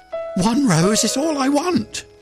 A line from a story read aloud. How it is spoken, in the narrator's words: cried the nightingale